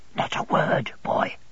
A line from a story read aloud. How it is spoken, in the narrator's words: he pursued in a whisper